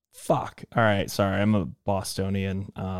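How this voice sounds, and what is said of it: Usual voice. Nothing is said of it.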